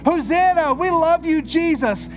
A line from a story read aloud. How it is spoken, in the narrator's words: are screaming